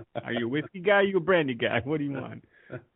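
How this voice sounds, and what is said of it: Put-on Boston accent. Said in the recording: “the Boston accent's coming out”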